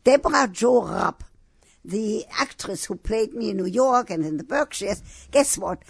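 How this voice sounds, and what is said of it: Speaker's own foreign accent. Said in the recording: “you have to take a speech therapist in order to lose your accent ... She had to take a speech therapist to learn my accent.”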